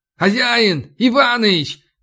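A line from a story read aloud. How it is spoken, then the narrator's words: Shout. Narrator (Russian): крикнул я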